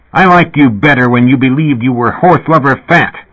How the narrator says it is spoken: Kevin yelled

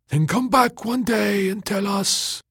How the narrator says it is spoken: the fogs cried

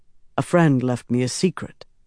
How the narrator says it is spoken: Rand said

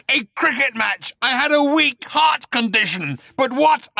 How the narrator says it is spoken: roared Agrajack

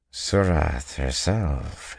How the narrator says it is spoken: he murmured

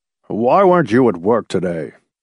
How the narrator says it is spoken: the heavy-set man grunted

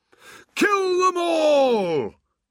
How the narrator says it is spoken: roared, not quite as fiercely as he would have liked

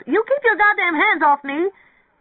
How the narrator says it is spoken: Mary Ann wailed

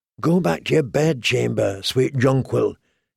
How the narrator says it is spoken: he whispered

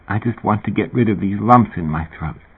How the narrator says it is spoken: Sherry, in agony, murmured

